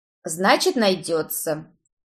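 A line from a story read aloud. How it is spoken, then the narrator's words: Dry summary. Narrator (Russian): сухо резюмировал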